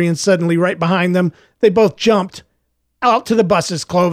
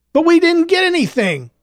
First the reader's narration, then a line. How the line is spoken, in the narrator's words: Clovis whined